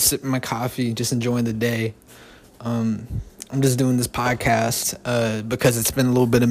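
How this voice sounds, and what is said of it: Usual voice. Nothing is said of it.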